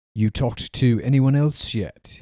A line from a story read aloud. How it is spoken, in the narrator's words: he asked